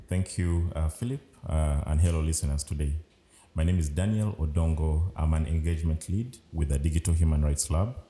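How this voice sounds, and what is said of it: Deep, unfamiliar-sounding voice. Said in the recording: “That strange voice, deep voice you've heard.”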